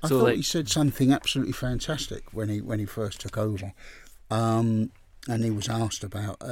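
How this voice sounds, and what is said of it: Usual voice. Nothing is said of it.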